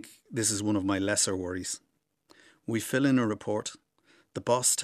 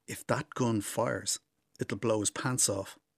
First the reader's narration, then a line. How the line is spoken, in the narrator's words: Rossa, the youngest, whispers to me